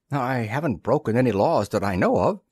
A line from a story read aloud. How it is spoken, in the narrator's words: said Arch feebly